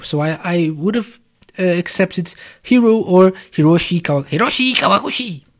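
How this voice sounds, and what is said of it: Bad put-on Japanese accent. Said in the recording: “bad Japanese accent.”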